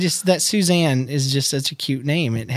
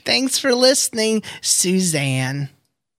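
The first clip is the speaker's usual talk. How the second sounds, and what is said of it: Cutesy little voice. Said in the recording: “It has to have a cutesy little voice to go with it. So that's my cutesy voice”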